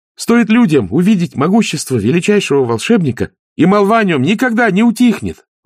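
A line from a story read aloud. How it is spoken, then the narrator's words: Exclaimed. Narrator (Russian): воскликнула цвет лотоса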